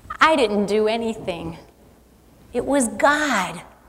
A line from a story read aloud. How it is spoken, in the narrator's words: whispered back